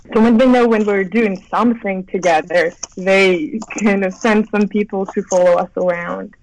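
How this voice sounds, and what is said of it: British accent. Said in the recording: “I sensed from the British accent”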